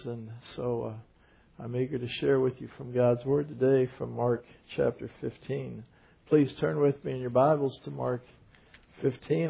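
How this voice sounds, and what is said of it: Weak, strained voice. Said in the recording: “my voice is quite weak today”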